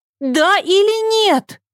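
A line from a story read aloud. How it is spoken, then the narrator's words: Screaming. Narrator (Russian): завопила Ева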